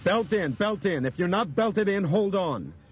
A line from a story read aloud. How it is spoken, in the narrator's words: Brian grabbed the microphone and shouted